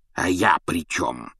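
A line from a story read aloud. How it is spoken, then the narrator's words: Hiss. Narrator (Russian): зашипел дядя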